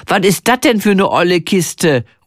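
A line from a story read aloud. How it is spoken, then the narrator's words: Calling out. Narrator (German): ruft sie, als sie meinen Camper sieht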